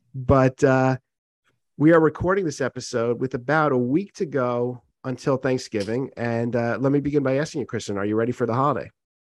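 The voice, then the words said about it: Strained, congested voice. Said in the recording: “my voice is a little bit strained, and that's because I'm getting over a pretty significant congestion”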